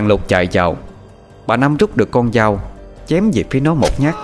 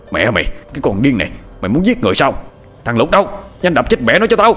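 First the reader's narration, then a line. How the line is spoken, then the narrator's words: Angry shout, old man. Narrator (Vietnamese): Lão tuất quát lên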